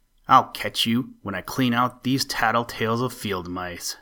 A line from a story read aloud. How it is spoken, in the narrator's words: snapped Ophie